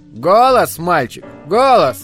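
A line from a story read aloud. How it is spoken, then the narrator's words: Shouting. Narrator (Russian): кричал Горас Дервинт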